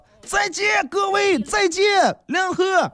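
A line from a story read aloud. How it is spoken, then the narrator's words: Child's heart-rending scream. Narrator (Chinese): 一个小朋友探出头啊，从高层探出头，撕心裂肺的喊道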